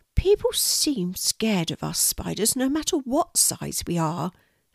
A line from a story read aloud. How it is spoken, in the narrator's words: said the spider sadly